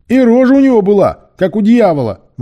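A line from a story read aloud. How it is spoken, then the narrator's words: Shuddering exclamation. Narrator (Russian): воскликнул третий пират, содрогаясь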